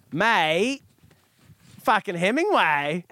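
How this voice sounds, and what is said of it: Put-on accent. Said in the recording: “Will you do it with an accent? ... Oh, I like that. I like it.”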